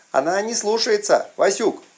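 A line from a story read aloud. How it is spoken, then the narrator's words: Hurried shout. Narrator (Russian): прокричал Аристарх поспешно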